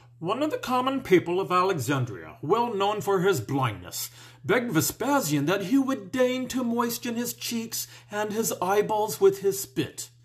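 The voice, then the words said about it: Reads aloud in a character voice. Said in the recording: “in my best Tacitus voice”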